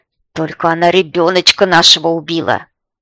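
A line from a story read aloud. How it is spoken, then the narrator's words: Very loud shout. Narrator (Russian): Гришка выкрикивает это так громко, что замолкают и пчелы, и кузнечики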